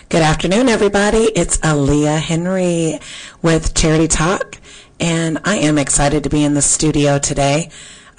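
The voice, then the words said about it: Slightly raspy voice. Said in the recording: “I'm sounding a little bit raspy, but I'm getting over um, something.”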